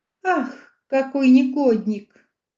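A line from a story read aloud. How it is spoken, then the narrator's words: Shouting through tears. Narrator (Russian): закричала сквозь слезы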